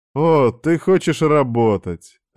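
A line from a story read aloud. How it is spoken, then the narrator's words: Joyful exclamation. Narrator (Russian): радостно восклицает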